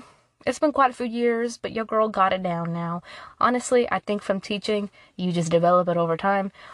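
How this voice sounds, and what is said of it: Usual voice. Nothing is said of it.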